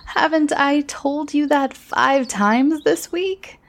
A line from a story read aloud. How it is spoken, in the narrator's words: Kate also laughed